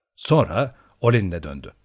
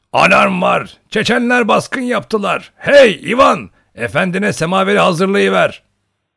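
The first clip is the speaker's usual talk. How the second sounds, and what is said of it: Booming shouting old man's voice. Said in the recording (Turkish): “Yeroşka dayı o gür sesiyle ... diye bağırdı”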